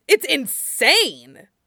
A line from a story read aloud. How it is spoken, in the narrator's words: Jet snapped